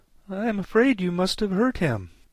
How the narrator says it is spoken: said in a trembling voice

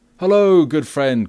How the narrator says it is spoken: cried Robin

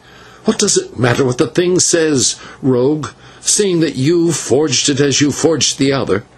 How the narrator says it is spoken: the señor turned to him and said fiercely

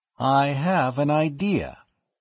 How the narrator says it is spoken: he said slowly

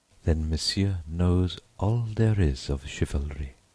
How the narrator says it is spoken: she murmured

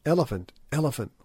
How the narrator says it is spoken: whispered the Kaffirs

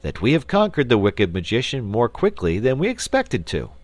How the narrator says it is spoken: said the wizard in a cheerful voice

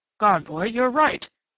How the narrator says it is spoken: Strawn exclaimed, and his heavy old face was very pale

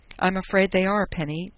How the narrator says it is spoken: Dundee told her miserably

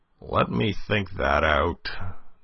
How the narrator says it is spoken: groaned Polichinelle

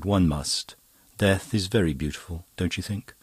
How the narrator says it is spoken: Emmeline sighed

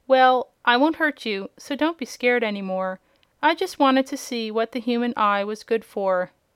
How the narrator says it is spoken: she said quite cheerfully

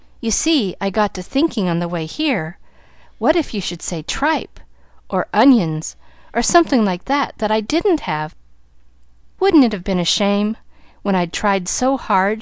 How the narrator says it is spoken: she laughed merrily

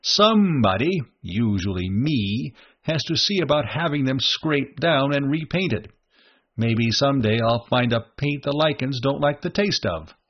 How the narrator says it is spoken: Ring said cheerfully

